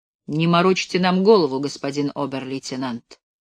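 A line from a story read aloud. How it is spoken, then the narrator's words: Calm. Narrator (Russian): дубленая кожа спокойно произнес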